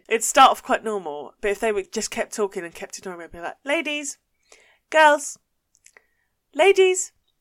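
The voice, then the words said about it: Essex English accent. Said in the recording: “I wouldn't be hiding my accent, ... not necessarily in an Essex-y way”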